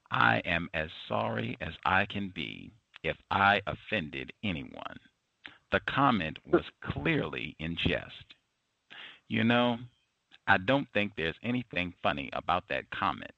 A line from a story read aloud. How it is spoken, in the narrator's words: says Cobble